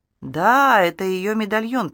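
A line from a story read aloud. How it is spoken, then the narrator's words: Smooth, insinuating. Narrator (Russian): произнес Генри вкрадчиво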